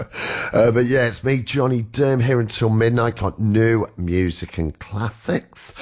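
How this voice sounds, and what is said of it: Hoarse, nearly lost voice. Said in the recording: “I've nearly lost my voice.”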